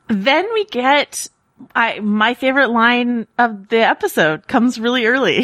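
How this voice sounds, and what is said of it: Usual voice. Nothing is said of it.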